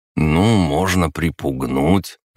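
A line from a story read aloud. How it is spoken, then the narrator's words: Uncertain, hesitant. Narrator (Russian): неуверенно сказал он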